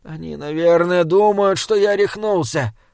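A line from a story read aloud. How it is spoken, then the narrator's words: Moaned. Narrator (Russian): простонал Саймон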